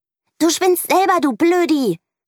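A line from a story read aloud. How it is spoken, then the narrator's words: Shout. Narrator (German): schreit Mieke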